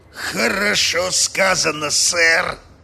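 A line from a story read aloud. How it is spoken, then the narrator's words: Growled. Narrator (Russian): прорычал Мозес Карвер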